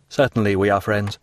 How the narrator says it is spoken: he replied

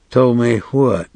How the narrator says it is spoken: said in a cold, level voice

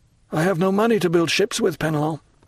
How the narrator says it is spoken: said the poor owner mournfully

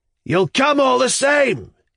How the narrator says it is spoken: shouted after me in an angry voice

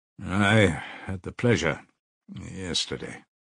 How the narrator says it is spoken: muttered Pyotr Petrovich with a hostile glance

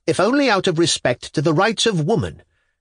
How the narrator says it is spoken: he burst out furiously

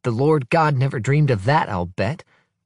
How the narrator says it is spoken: says Albert

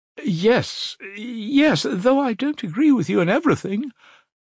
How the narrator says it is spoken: added Avdotya Romanovna earnestly

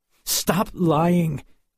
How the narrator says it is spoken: replied angrily

